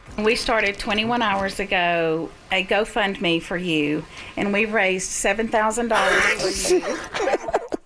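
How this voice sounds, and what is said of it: Speaks with a noticeable accent. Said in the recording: “God bless her heart with that accent. I just love it so much.”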